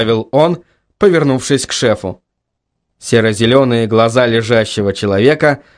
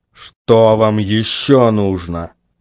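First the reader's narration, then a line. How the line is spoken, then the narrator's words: Hateful, through gritted teeth. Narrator (Russian): С ненавистью процедил Куайл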